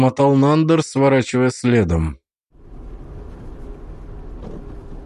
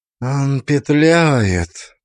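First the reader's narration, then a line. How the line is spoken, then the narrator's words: Through gritted teeth. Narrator (Russian): процедила Шая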